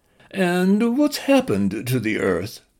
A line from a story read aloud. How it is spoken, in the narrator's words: she read in a plummy nasal voice she had chosen for the human